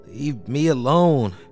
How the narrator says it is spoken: gurgled sleepily

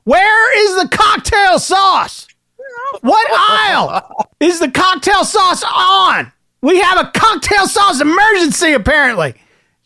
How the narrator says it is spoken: she begins to shout to whoever can hear

